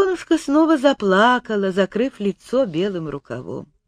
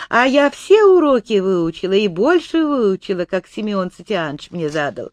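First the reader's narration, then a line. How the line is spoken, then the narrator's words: Joyful speech. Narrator (Russian): радостно заговорила она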